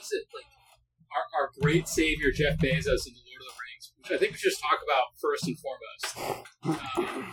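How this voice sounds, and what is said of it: Midwestern American accent. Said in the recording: “making fun of my Midwestern accent”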